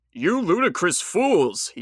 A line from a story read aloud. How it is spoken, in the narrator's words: he shouted